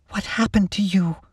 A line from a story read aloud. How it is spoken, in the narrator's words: Lacey asked Captain Monroe, her voice wavering